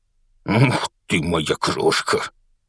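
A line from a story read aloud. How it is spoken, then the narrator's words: Strained laughing. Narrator (Russian): со смехом выдавил из себя мистер Дурсль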